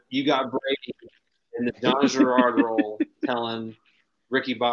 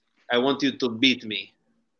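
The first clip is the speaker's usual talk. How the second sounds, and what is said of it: Put-on French accent. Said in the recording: “That's my best French accent”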